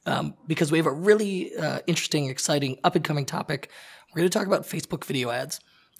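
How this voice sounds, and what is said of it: Hoarse, nearly lost voice. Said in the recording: “I'm totally hoarse today. I've lost my voice. ... excuse how terrible I sound”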